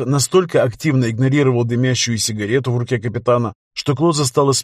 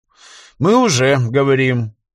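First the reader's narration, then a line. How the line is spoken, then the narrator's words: Tired. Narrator (Russian): устало сказал Клоза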